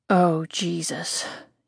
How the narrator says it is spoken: he mumbles against my lips

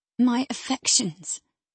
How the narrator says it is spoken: he murmured

